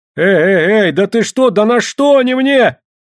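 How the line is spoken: Yelling while flailing. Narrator (Russian): завопил Барабанов, отбиваясь от комаря

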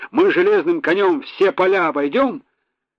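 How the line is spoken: Cheerful singing along. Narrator (Russian): они втроем весело подхватывали, несколько переиначивая песню

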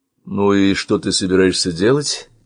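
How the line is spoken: Forced calm, deliberately sluggish. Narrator (Russian): Пытаясь сохранить спокойствие, нарочито вялым голосом спросил Сева

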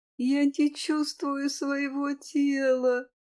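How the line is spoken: Moaning. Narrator (Russian): простонала подруга

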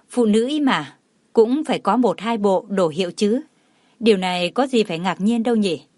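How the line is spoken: Smiling. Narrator (Vietnamese): Cô chỉ mỉm cười rồi nói

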